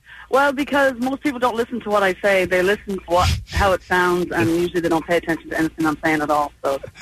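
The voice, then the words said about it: Irish Dublin accent. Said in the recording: “guess ... accent ... All the way from Dublin ... I could just listen to you talk all day. You have the best accent ... the Irish accent is the sexiest”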